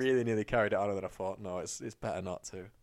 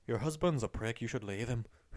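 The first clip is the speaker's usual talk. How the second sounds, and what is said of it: Put-on Irish accent. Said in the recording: “that was an exceptional Irish accent.”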